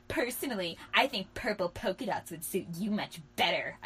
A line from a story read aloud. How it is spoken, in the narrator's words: I sneered